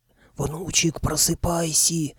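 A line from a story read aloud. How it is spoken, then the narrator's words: Old man's hiss. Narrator (Russian): шипел дед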